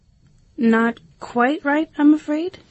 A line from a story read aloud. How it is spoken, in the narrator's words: said Alice timidly